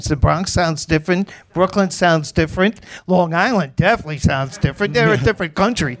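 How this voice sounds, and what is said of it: New York Queens accent. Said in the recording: “Where's that accent from? ... New York. ... I grew up in Queens. ... That's a Queens accent? ... Yes, this is a Queens accent.”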